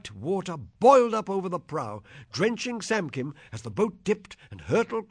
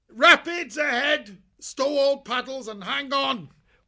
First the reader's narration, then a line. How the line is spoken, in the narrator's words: Alfo yell out